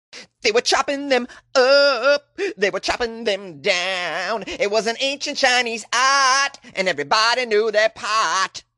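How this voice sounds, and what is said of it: Singing in a Boston accent. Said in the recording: “That's just a fun song to sing with a Boston accent.”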